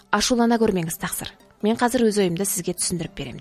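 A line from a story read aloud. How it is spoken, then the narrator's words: Plain. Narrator (Kazakh): деді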